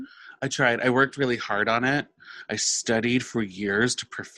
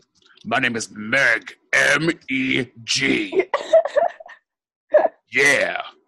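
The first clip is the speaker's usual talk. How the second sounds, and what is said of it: Impression of the character Meg. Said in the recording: “You sound just like her. What a good impression.”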